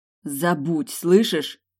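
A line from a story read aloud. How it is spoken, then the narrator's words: Growl through teeth. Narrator (Russian): Рычу сквозь зубы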